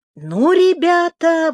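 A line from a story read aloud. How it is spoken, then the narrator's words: Accented exclamation. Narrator (Russian): воскликнул Рамирес со своим неподражаемым акцентом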